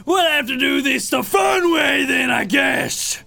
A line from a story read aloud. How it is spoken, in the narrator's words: our captain Blackbird, yells out